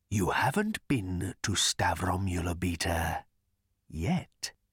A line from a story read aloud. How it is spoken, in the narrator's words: he whispered